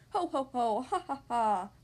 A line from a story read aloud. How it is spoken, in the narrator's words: laughed the 2 lazy little pigs